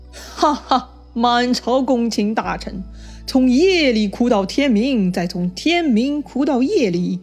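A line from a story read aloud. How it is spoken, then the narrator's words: Hearty laughter. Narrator (Chinese): 他抚掌大笑说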